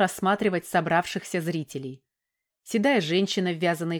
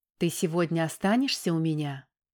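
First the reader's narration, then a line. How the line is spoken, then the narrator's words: Passionate whisper in ear. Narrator (Russian): горячо зашептала в ухо Оксана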